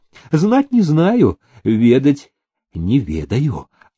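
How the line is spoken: Sincere old soldier. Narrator (Russian): искренним тоном сказал отставной солдат

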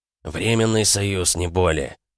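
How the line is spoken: Through gritted teeth. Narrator (Russian): процедил Володя

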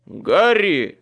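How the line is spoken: Shout. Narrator (Russian): крикнул Майкл

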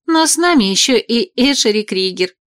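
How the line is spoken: Giggling into palm. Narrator (Russian): хихикнула в ладошку

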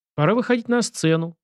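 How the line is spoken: Gloomy sigh. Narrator (Russian): вздохнул Сашка, мрачно скривившись

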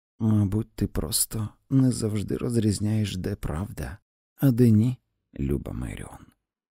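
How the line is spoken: Gentle, mild tone. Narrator (Ukrainian): сказала своїм звичним лагідним тоном

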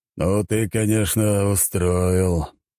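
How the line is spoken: Groaning. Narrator (Russian): простонал император

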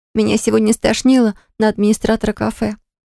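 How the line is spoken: Tearful confession, sister. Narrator (Russian): сквозь слезы стала признаваться сестра

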